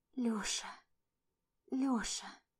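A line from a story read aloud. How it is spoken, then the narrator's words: Near-silent shocked, breathless whisper. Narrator (Russian): Почти беззвучным шокированным шепотом, задыхаясь вместе со мной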